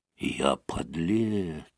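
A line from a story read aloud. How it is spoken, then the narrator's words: Whispered to himself. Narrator (Russian): прошептал он про себя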